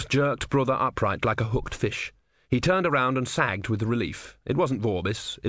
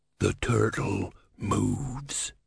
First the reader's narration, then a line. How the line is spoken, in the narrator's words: he hissed